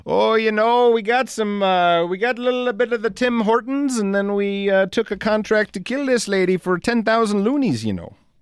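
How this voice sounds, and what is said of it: Weak put-on Canadian accent. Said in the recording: “I don't have a good Canadian accent.”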